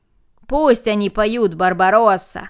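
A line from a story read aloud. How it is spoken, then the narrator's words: Group shouting. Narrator (Russian): закричали остальные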